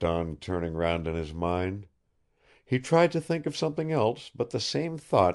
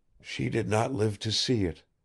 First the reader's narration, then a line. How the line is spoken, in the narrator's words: he murmured sadly